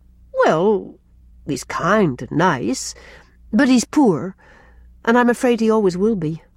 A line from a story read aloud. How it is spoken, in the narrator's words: faltered Rilla